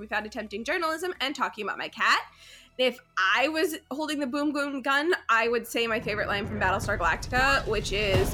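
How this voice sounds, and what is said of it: Nasal, congested voice. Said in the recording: “I'm getting over a cold, so if I sound nasally and more annoying than usual”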